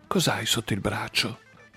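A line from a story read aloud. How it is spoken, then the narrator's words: Voice broken from crying. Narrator (Italian): chiese Samantha con la voce ancora rotta dal pianto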